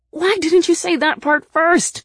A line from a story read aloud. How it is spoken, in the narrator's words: I yelled at her